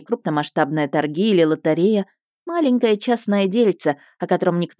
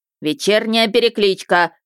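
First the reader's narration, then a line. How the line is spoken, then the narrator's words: Loud bark, close by. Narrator (Russian): рявкнула над ухом надзирательница Хольд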